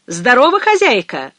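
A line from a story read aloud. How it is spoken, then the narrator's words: Hailing call. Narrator (Russian): окрикнул он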